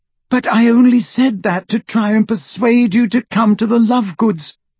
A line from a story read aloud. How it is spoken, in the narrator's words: cried Hermione in exasperation